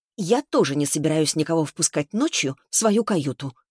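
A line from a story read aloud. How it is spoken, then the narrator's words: Fairly sharp. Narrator (Russian): довольно резко отреагировала она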